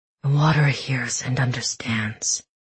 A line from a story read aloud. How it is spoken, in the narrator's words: he murmured beneath his breath